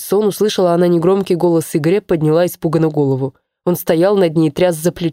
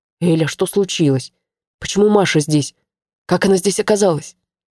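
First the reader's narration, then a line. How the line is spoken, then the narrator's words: Anxious whisper. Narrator (Russian): спросил встревоженным шепотом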